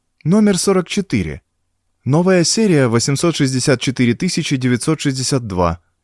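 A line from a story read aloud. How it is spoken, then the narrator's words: Calm young man. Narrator (Russian): спокойно сказал юноша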